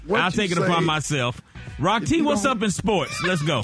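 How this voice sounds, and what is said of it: Game show host voice. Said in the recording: “Let's make a deal, game show voice ass.”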